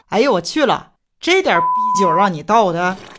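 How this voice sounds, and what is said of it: Northeastern Chinese dialect. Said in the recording (Chinese): “用东北话怎么说？”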